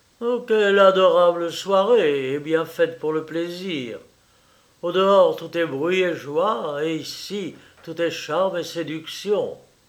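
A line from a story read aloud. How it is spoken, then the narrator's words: Forced cheerful exclamation. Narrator (French): il s'écria avec une gaieté un peu forcée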